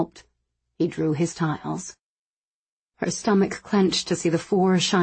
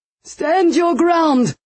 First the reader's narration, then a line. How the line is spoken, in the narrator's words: Rishar shouted